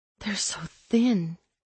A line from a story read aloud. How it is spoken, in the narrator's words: she murmured